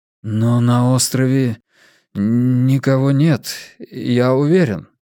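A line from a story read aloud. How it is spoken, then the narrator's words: Trembling voice. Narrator (Russian): дрогнувшим голосом произнес Армстронг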